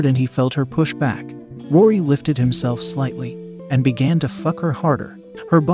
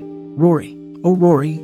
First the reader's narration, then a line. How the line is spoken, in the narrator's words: Annie moaned